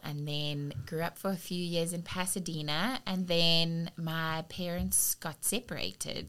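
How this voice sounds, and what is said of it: Foreign, non-New Orleans accent. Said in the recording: “you have an accent ... Definitely not a New Orleans accent”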